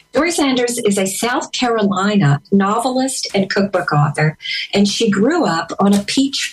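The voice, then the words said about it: Pleasant noticeable regional accent. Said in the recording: “your accent is amazing. I love it. It's so nice.”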